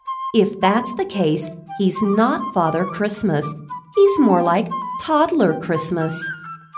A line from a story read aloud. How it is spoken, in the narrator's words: Mother Bear laughed and said